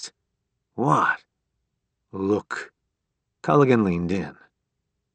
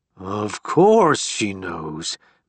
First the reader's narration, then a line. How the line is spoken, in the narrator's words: Barrett snarled